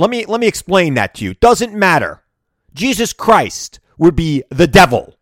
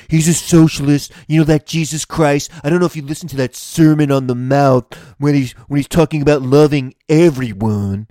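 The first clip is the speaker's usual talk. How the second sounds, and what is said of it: Imitates another person's voice. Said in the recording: “Let me try to do this as, as Donald Trump.”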